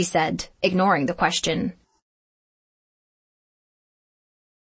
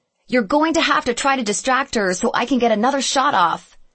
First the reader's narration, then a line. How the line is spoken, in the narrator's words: shouted Katie